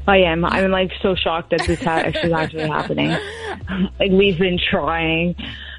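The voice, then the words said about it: Nervous-sounding voice. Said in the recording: “You sound nervous.”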